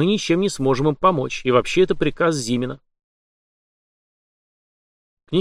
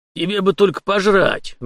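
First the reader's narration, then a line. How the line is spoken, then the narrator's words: Good-natured old man's snort. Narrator (Russian): беззлобно хмыкнул старый абордажник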